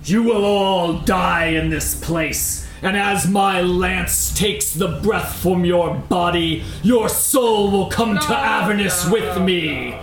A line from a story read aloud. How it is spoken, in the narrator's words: He lets out a booming voice and says